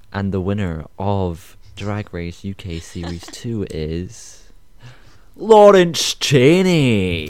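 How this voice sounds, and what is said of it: Dramatic announcer voice. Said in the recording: “announce it for us. Give me your announcement voice.”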